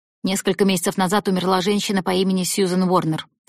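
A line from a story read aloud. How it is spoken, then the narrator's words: Plain. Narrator (Russian): сказала она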